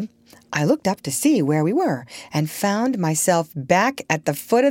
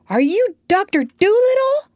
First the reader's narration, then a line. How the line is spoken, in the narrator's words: I shouted